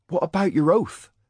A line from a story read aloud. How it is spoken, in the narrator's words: Cade cried